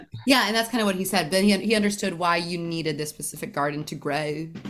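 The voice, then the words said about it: Put-on California voice. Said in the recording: “doing my California voice”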